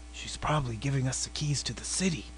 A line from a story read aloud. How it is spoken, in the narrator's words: whispered Stanley